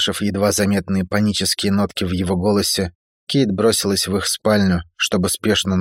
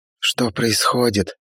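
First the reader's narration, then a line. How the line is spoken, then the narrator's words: Whispered question. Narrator (Russian): шепотом спросила Северина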